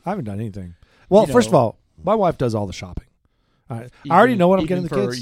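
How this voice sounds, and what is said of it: Strained, worn-out voice. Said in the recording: “my voice is totally shot right now.”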